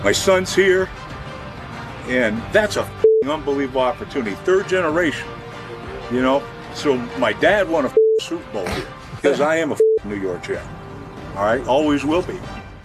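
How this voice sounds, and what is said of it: Emotional, choked-up voice. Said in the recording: “emotional, a little choked up,”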